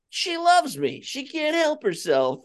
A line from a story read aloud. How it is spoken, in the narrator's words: He's yelling